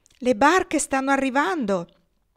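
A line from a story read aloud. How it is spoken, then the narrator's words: Echoing shout. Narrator (Italian): Il grido risuonò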